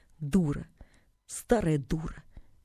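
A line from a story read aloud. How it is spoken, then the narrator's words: Quiet, distinct, boy. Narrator (Russian): Мальчик сказал тихо, отчетливо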